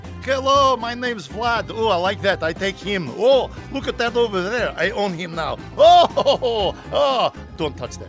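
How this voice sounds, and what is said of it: Deliberately bad put-on accent. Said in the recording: “another bad accent ... we're tackling Ukraine ... I have many bad accents for this”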